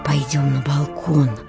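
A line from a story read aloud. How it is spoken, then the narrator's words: Whisper. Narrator (Russian): шептал Батюня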